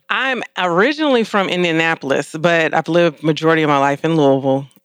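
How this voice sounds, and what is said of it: Midwestern Southern drawl. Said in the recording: “you pick up that draw, but you also got that, what is it, Midwestern, whatever ... Got that Midwestern, Southern swang.”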